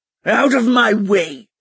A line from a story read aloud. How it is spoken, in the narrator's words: he growled